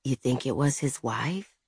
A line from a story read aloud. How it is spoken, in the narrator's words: Izzy whispered